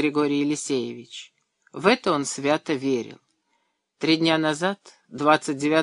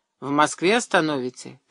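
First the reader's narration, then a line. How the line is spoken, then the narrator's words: Grumbled. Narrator (Russian): пробурчал Андрей Иванович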